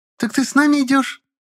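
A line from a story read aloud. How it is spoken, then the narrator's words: Joyful squeal. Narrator (Russian): Радостно взвизгнула Акулина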